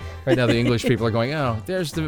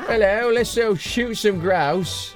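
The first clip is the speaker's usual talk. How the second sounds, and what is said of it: American's bad put-on English accent. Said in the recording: “the American with his English accent again, which is terrible”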